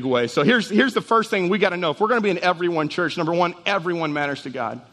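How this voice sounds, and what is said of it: Very fast speech. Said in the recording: “why I'm talking so fast”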